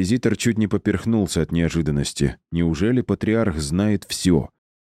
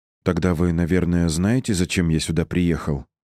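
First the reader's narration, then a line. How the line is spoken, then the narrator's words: Mumbling inquisitor. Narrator (Russian): промямлил инквизитор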